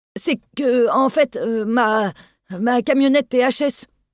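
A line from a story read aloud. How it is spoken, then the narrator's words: Stammering. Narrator (French): balbutia Delorme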